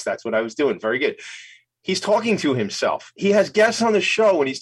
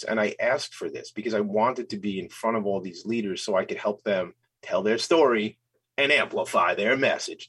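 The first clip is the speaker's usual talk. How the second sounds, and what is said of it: Announcer-style radio voice. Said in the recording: “That sounds like a radio voice”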